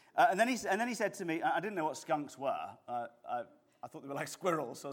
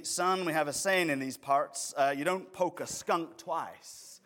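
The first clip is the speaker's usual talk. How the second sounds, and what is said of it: Unconvincing put-on Southern US accent. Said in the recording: “My London accent is probably more convincing, but that's all I got”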